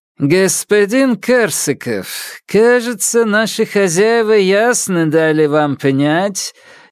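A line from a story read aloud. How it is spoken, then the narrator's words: Displeased. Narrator (Russian): недовольно начал корнет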